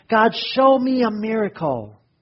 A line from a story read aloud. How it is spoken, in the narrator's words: the person shouted